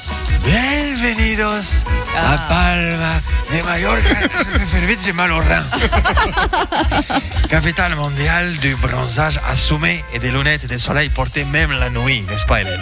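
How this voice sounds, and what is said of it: Old Spanish tour guide, lisping. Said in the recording (French): “que t'aies l'accent, que t'aies une soixantaine d'années, que tu sois un vieux guide espagnol... Et tu zozotes.”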